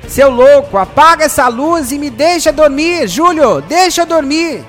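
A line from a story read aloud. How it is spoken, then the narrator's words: Annoyed, just-woken shout. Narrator (Portuguese): Ricardo, incomodado com a claridade, acorda e grita com Júlio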